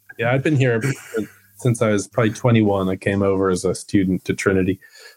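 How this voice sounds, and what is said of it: American accent. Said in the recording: “was born in Pennsylvania... But the accent is a bit of a giveaway.”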